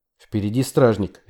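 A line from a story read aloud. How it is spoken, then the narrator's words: Sharp. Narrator (Russian): резко сказала Хелен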